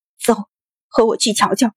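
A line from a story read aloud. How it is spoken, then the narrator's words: Through gritted teeth. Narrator (Chinese): 狠狠咬牙说道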